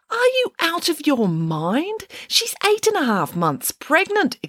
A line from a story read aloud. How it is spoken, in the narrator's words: exclaimed Judith Piggins